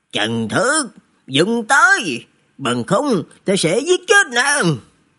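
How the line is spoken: Low threatening bark. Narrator (Vietnamese): Hạ Sĩ Sương trầm giọng quát

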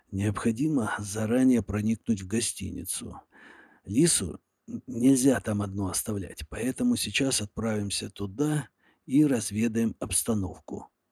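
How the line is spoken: Secretive whisper. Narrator (Russian): шепотом произнес я, будто бы кто-то из посторонних мог нас подслушать

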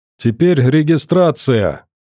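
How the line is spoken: Said loudly. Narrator (Russian): громко сказал Матвей

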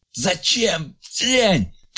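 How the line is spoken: Anguished shout. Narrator (Russian): крикнул Ильяс с надрывом

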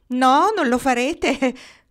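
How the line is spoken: Laughing reply. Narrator (Italian): rispose Carlyon ridendo

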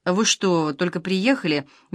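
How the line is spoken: Gentle question. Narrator (Russian): мягко спросил автоматчик

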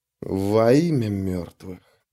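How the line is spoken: Soundless breathed whisper. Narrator (Russian): беззвучно выдохнул он

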